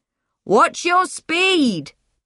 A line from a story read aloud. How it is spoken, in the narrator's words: Doug shouted